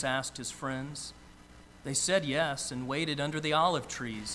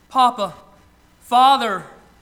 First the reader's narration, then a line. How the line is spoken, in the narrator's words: Jesus cried